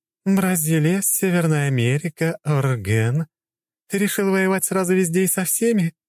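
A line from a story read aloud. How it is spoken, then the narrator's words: Giggling. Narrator (Russian): хихикала Цусима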